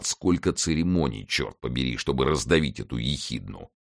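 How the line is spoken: Grumbling. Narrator (Russian): ворчал

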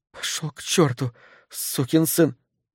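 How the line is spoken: Whisper, voice just returned. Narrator (Russian): к ней вернулся голос, она прошептала

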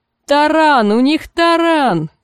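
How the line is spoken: Shouting from the wall. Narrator (Russian): крикнули со стены

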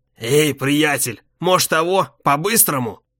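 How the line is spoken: Hoarse voice. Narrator (Russian): коп говорит своим хриплым голосом

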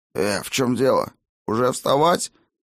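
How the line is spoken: Sleepy mumble. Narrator (Russian): сонно забормотал тот

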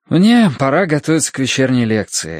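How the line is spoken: Sighing. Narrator (Russian): сказал он, вздохнув

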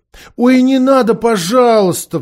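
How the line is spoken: Pleading. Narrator (Russian): взмолился Каспиан

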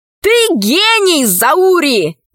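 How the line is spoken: Shouting. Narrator (Russian): закричал Пашка

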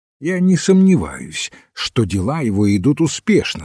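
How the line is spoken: Plain. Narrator (Russian): сказал Рок

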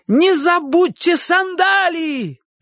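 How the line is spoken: Shouted. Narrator (Russian): крикнул Чик

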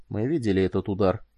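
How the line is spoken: Quiet. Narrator (Russian): сказал он тихо

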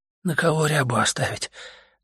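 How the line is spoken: Sad, weak voice. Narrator (Russian): грустно и слабо сказал он

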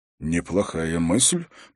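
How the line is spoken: Muttered. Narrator (Russian): пробормотал Дункан

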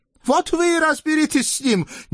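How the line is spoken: Shouting without turning around. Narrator (Russian): не оборачиваясь, прокричал Бекул-ага

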